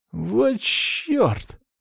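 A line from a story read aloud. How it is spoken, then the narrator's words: Trembling voice. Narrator (Russian): дрожащим голосом проговорил Саня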